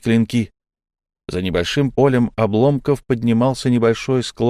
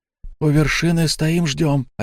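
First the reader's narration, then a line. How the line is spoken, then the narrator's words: Wheezy rasp. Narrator (Russian): опять просипел Фари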